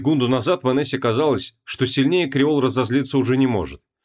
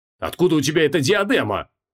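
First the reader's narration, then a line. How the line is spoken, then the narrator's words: Barked. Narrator (Russian): рявкнул Креол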